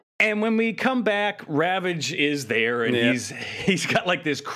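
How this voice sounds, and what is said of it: Usual voice. Nothing is said of it.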